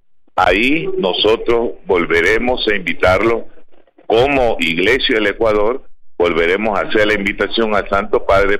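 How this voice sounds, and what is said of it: Beautiful announcer-like voice. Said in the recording (Spanish): “hermosa voz, una voz de locutor”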